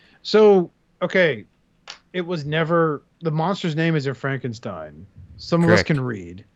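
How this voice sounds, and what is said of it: Usual voice. Nothing is said of it.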